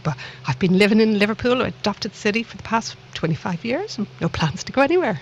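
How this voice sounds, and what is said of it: Irish Dublin accent. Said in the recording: “this little accent of mine was not from the lovely town of Liverpool. I like to think it's from an equally lovely town called Dublin across the Irish Sea.”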